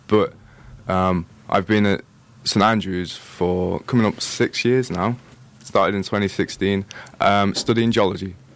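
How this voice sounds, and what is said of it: Liverpool-area English accent. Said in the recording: “I'm from near Liverpool ... I'm actually from the Wirral. Which is very difficult to say in my accent”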